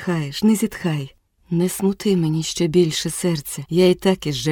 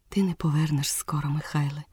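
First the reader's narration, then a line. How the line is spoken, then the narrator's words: Said with a sigh. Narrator (Ukrainian): сказала і зітхнула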